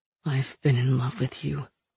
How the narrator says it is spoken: he said quietly

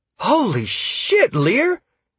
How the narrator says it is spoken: Sierra gasped

